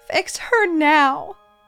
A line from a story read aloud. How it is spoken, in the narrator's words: Rosie howls